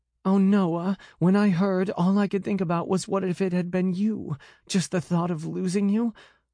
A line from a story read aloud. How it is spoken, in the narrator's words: Her voice choked off with her sobs